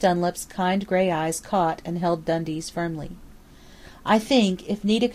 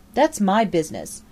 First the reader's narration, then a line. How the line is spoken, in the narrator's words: the woman retorting harshly